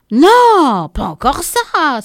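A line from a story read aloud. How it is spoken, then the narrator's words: Exclaimed. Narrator (French): s'exclama-t-il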